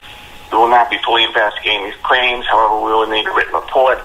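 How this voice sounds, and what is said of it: Unconvincing fake accent. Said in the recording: “what a bad accent that is? ... it's totally fake.”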